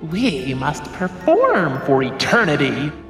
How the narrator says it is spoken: another clown growled

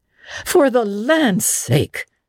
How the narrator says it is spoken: gasped Marilla

